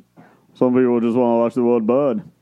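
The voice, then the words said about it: Imitates another person's voice. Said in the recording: “Can you do a Michael Caine? ... See? Just like that.”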